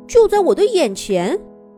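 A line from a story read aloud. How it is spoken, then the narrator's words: Giggling, cheerful. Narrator (Chinese): 那个声音笑嘻嘻的说道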